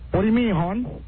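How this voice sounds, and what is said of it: Weak attempt at Baltimore accent. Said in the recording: “can you do the Baltimore accent ... No, see, that's not good.”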